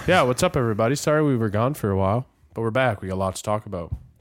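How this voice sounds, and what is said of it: Congested, stuffed-up voice. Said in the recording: “I got a cold ... I'm still a little stuffed up.”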